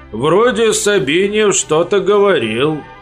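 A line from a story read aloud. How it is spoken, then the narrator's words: Toothless old man mumbling. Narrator (Russian): прошамкал старичок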